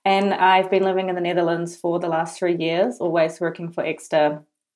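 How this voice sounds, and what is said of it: Strong New Zealand accent. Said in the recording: “I'm originally from New Zealand, as you can probably tell with my super strong accent.”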